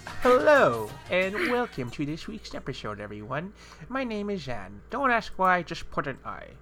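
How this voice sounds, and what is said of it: Silly made-up foolish voice. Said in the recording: “Why do you sound like a fool? ... It's like a random voice that I just came up with the moment we press play ... Why do I sound like a buffoon?”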